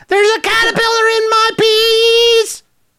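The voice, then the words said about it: Squeaky, helium-like high voice. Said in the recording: “My voice was so squeaky, I sounded like I had inhaled helium.”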